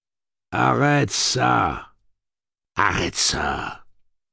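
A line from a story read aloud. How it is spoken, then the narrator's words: Growled. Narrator (French): grogne-t-il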